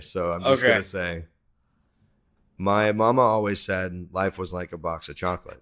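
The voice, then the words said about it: Slips into a Forrest Gump accent. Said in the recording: “Forrest Gump, man. ... you tried not to do the accent ... but it still came out.”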